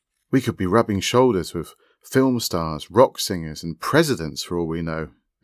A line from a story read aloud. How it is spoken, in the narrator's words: exclaimed Marianne